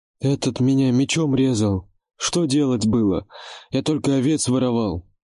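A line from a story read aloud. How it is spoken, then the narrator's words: Whimpering. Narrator (Russian): Продолжал хныкать тот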